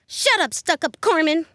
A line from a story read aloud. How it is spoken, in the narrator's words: blurted Josie